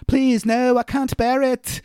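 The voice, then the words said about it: Inconsistent put-on accent. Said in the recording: “My accent is all over the place”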